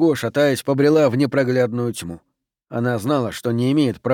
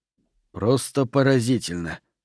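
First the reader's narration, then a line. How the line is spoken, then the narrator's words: Mutter. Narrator (Russian): пробормотал рядом с ней Пендергаст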